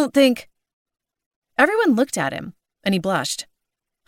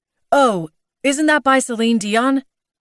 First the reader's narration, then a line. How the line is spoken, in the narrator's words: Larry blurted loudly